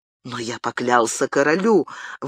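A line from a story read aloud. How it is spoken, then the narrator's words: Forced, strained. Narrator (Russian): выдавил из себя Габриэль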